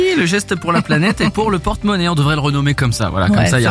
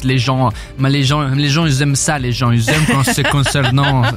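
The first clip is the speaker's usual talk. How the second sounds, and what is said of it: Briefly puts on an accent. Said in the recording (French): “Je sais pas pourquoi j'ai pris un accent.”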